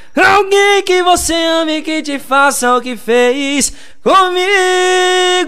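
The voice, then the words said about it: Sings imitating another singer's voice. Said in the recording (Portuguese): “imitando ... a voz dos ... bichos quando tá bebo ... dá uma imitadinha aí, Bruno Marrone”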